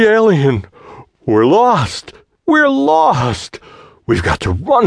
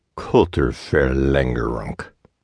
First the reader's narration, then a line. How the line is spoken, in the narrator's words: grunted the tense young man in the toga of an analyst